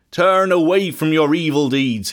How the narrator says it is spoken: he shouted

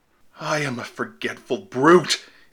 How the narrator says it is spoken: exclaimed Will

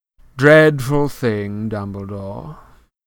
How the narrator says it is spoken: said Malfoy lazily

